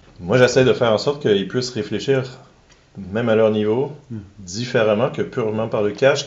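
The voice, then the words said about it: Québécois French accent. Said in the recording (French): “j'ai un accent québécois”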